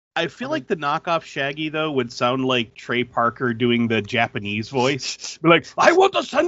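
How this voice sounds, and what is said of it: Usual voice. Nothing is said of it.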